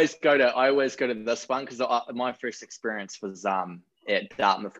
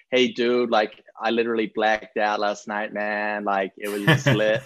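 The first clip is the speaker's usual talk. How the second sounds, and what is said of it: Put-on American college guy accent. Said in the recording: “American accent... my accents are terrible... Yeah, that's pretty good. That's not bad.”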